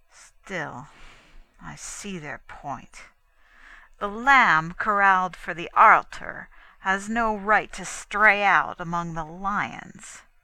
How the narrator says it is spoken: added grimly

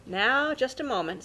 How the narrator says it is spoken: said his wife

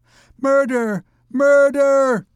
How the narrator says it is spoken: shrieked the unhappy gypsy

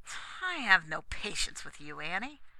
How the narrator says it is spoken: exclaimed Dick

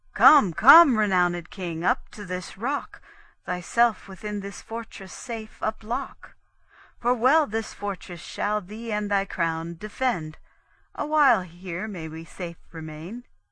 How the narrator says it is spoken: the Soldan thus far off exclaimed

